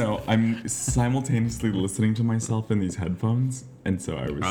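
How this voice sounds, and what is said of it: Usual voice. Nothing is said of it.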